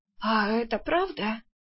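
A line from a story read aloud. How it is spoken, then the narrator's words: Hoarse, coughing, irritated. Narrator (Russian): все еще покашливая прохрипела Арсана, раздраженно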